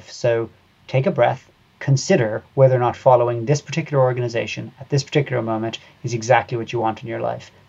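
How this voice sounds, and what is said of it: Irish accent. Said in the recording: “I can tell from your accent that you are Irish.”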